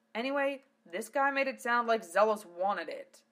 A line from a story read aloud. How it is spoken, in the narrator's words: snarled Val